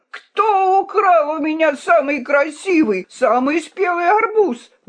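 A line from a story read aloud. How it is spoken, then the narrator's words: Desperate wailing merchant. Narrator (Russian): вопил в отчаянии какой-то торговец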